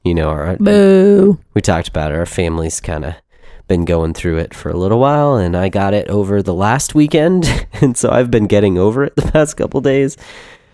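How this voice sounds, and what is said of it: Deeper, nasal voice from illness. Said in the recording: “my voice is a little different this week. Possibly a little more manly, a little more nasally ... I'm getting over some sickness”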